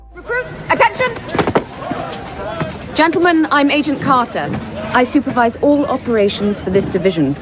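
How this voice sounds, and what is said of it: British accent. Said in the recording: “Must be the accent, Queen Victoria.”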